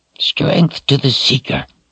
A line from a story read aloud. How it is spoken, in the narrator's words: Addie said in a rasp